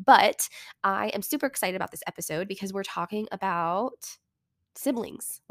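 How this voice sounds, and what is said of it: Wonky voice from a cold. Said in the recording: “I have been fighting a cold for over a week, so my voice is a little wonky sounding”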